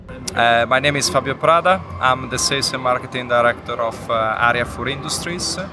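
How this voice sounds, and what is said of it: Strong foreign accent in English. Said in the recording (German): “mit starkem Dialekt”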